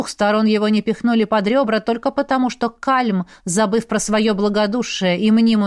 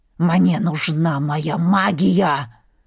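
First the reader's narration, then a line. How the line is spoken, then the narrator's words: Growled. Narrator (Russian): рычал кузен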